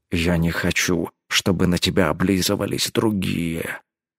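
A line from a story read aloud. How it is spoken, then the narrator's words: Quiet. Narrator (Russian): тихо произнес он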